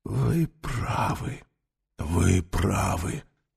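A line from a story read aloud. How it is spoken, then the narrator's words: Whisper. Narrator (Russian): прошептал он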